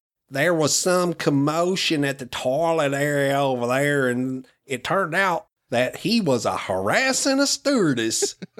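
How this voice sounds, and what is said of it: Put-on Southern US accent. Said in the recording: “sounds very Southern.”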